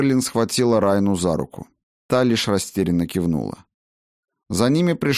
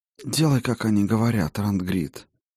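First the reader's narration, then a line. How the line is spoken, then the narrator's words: Quiet advice. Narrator (Russian): негромко посоветовала Сигрлин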